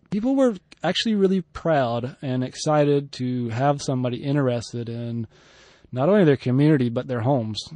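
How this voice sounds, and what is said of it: American southern accent. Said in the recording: “a tall, white gringo with red hair probably helped me. With a southern accent.”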